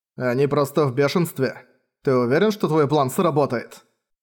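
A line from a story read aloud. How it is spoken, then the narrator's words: Plain. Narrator (Russian): спросил Манхао попугая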